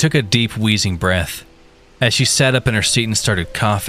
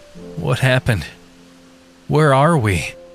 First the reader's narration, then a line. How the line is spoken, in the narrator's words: groggily stammered out